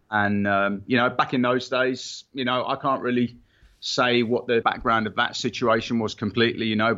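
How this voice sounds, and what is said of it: Northern Irish accent. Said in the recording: “clearly we hear an accent... You have an accent to most of our listeners here.”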